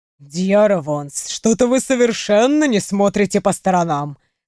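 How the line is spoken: Amused snort. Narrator (Russian): хмыкнул Рэй

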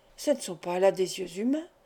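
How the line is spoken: Student murmuring. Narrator (French): murmura l'étudiant

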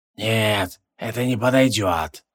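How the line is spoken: Muttered. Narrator (Russian): наконец пробормотал он

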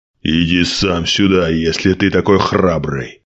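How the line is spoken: Angry growl. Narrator (Russian): Злобно прорычал он Николаю

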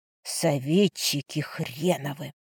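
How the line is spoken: Muttered under breath. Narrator (Russian): Прошептала я себе под нос

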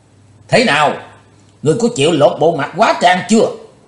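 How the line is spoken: Loud shout. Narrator (Vietnamese): Ông ta dở giọng quát lớn

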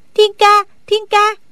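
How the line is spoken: Loud urgent calling. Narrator (Vietnamese): Đinh Đan lớn tiếng la gọi

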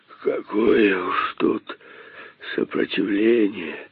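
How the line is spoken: Sighing. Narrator (Russian): вздохнул косой

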